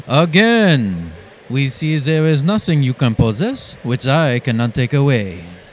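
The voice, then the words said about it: Put-on French accent. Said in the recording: “Say it in a French accent. ... In a French accent.”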